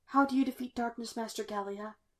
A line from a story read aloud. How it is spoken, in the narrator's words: he whispered